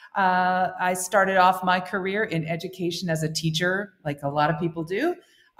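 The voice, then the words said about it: American accent. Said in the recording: “I'm an American, as you can probably hear from my accent.”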